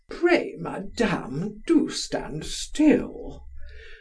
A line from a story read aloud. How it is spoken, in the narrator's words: Monsieur the Superior followed, grumbling, repeating at every moment